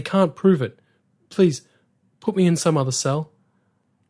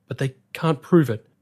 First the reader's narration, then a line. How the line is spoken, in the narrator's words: gasped the prisoner